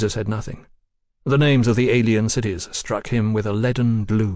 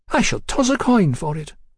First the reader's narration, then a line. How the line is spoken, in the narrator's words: decided brightly